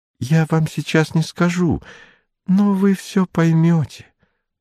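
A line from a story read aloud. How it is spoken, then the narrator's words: Whisper. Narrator (Russian): прошептала она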